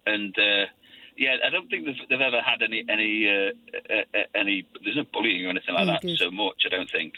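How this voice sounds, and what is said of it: English accent. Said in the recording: “we're both half Scottish, but we both sound English”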